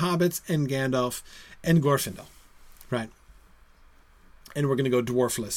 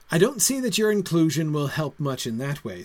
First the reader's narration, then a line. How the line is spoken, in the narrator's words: said Faramond